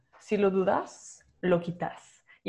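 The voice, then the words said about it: Put-on Argentine Spanish accent. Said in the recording (Spanish): “Y es en acento argentino, porque así fue como originalmente lo escuché.”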